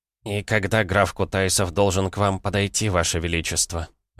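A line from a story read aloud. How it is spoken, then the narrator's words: Sighing question. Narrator (Russian): вздохнув, спросил Анисимов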